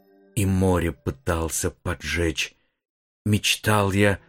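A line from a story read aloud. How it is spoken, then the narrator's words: Uncertain whisper. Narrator (Russian): прошептал неуверенно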